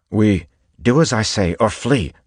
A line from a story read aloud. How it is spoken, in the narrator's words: snapped